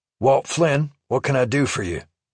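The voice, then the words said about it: No-nonsense Texas drawl. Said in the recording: “He had a no-nonsense Texas drawl that I guessed went back generations.”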